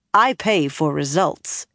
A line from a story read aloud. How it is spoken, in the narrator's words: Egyanin told him firmly